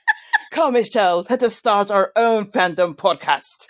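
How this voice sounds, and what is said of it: Put-on accent. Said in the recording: “I love that you're going into an accent there”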